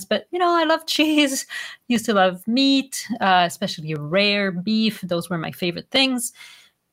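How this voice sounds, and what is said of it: Quebec French accent in English. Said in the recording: “you can hear it in my voice. I'm from a French background. I'm from Quebec, not from France.”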